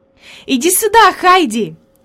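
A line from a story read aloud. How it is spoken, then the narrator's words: Excited exclamation. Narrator (Russian): воскликнула Клара, увидев подружку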